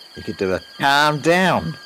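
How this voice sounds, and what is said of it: Poor attempt at Scouse accent. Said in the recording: “That accent came out really badly. ... That was meant to be a scouser.”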